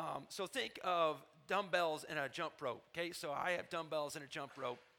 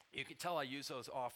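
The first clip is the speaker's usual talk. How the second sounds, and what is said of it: Sarcastic delivery. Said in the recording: “I say that sarcastically.”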